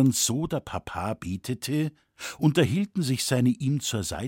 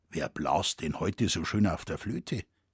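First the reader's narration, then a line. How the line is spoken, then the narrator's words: Quiet question. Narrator (German): fragte leise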